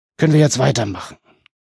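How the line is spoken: Groaning. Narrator (German): Baelund stöhnte

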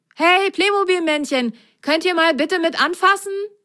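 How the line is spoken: Calling out. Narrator (German): rief er

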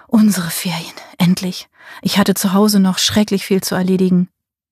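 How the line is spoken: Murmur into ear. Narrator (German): Er murmelte in ihr Ohr

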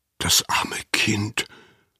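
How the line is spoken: Whispered. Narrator (German): flüsterte Anna

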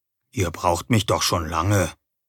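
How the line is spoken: Quiet answer. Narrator (German): antwortete leise

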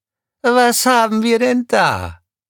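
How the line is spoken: Croaking. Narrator (German): krächzte sie

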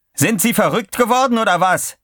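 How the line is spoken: Screaming. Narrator (German): schrie McPherson

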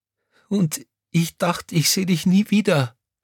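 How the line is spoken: Sobbing. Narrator (German): schluchzte Crescentia Rausch

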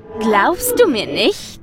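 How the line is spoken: Mocking question. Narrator (German): fragte es spöttisch

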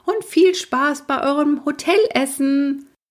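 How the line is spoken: Grandmother shouting. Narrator (German): schrie Großmutter

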